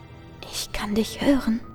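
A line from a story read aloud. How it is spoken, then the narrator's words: Whispering voice. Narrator (German): flüstert die Stimme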